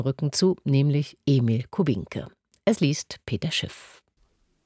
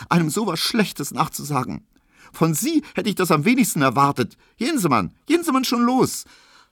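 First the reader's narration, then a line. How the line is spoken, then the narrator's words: Sobbing. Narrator (German): schluchzte sie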